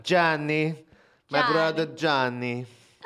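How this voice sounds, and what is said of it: Put-on Italian accent. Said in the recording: “And we end with an Italian accent.”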